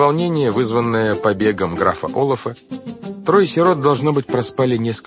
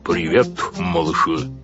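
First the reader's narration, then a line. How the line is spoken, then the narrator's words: Loud rumbling voice. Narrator (Russian): сказал он громким, ракочущим голосом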